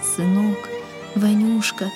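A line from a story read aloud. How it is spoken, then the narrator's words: Tearful whisper, old father. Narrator (Russian): шептал отец, и по впалым морщинистым щекам текли крупные слезы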